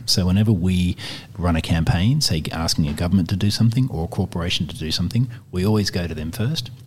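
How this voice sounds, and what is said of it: Smooth, pleasant podcast-style voice. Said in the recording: “you've got a very lovely podcast voice”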